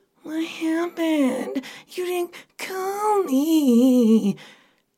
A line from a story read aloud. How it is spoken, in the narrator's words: Nicole whines out